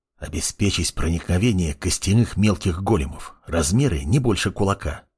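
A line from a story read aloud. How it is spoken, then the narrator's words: Boy whispering. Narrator (Russian): прошептал мальчишка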